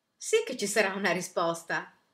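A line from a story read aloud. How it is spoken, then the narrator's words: Delegation leader exclaiming. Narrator (Italian): esclamò il capo della delegazione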